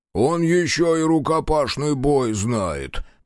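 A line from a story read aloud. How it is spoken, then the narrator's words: Groaning big man. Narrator (Russian): простонал здоровяк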